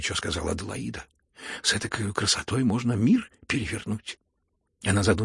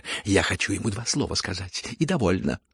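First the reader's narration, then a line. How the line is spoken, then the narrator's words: Quick curt retort. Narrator (Russian): быстро отрезала генеральша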